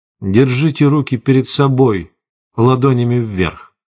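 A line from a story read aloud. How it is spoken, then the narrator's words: Soft. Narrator (Russian): мягко сказал человек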